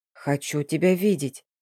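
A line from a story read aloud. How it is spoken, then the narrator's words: Said quietly. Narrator (Russian): тихо произнес Ильяс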